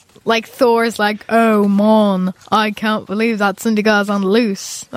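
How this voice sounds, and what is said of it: Attempted Thor character voice. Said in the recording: “That's not a good Thor accent. ... No, but it was good.”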